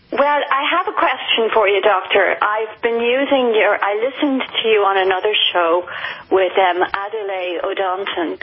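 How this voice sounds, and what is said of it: Irish accent. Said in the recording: “Where'd that accent come from? That's not New Orleans. ... It's from Ireland. I'm Irish.”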